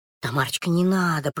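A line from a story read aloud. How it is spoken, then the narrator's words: Whisper. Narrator (Russian): прошептала Белочка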